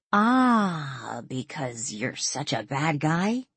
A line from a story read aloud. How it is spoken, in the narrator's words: Danielle asked with a chuckle